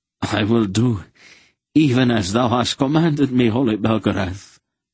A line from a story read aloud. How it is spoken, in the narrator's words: Sir Andrig choked